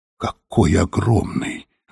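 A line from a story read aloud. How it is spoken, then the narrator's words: Whisper. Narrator (Russian): прошептала Софи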